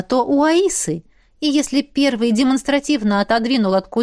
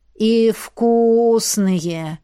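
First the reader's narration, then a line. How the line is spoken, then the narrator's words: Contented drawl. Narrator (Russian): довольно протянул Эд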